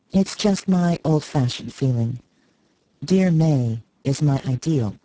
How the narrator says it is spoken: said Mrs

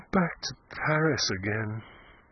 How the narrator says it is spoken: murmured in a voice that was nearly a sigh

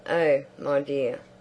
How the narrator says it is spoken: Isabel laughed

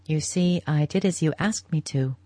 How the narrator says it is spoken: she said

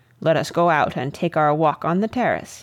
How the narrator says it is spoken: he said, with a short laugh

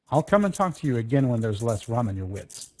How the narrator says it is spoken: said Wolverstone

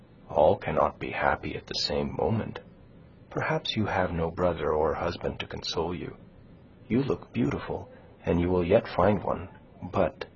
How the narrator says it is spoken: she continued, dropping her voice to a whisper

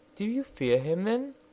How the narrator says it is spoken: asked the princess anxiously

